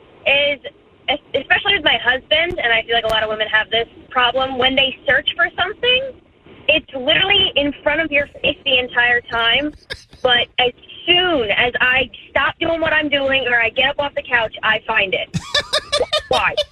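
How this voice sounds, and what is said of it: Angry, irritated tone. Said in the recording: “I can hear the anger in your voice.”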